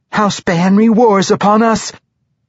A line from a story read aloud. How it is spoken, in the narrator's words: said with a gasp